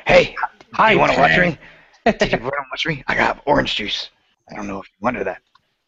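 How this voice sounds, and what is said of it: Imitates another person's voice, poorly. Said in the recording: “That's a terrible Gary Busey impersonation.”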